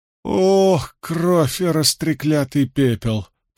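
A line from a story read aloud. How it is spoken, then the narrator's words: Groaning. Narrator (Russian): простонал Мэтт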